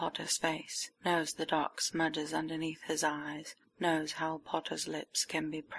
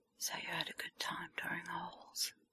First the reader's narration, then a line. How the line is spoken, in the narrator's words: It's a whisper